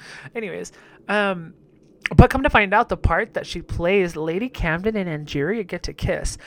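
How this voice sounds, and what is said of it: Usual voice. Nothing is said of it.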